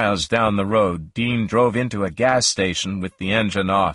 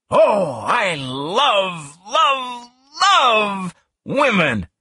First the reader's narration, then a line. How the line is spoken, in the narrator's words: he shouted